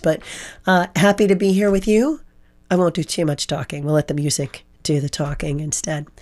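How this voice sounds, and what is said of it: Hoarse voice. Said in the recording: “hoarse voice ... It's just making me really hoarse.”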